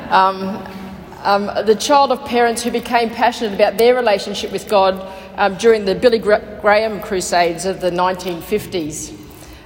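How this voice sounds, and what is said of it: Scottish accent. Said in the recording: “I was born 5th in the line of 5 in Glasgow in Scotland. You can tell by my accent, I'm sure.”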